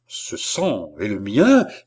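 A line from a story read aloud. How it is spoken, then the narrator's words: Frantic, distraught cry. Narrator (French): s'écria Balsamo, ivre d'égarement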